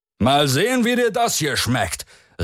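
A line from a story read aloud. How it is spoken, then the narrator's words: Shouting over wind. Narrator (German): rief er gegen die Gewalten des Windes an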